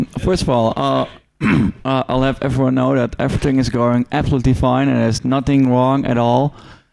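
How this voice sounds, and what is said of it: Cracky voice. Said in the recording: “my voice is a bit cracky”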